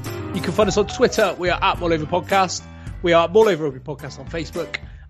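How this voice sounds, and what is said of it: West Country accent. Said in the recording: “all with a West Country accent.”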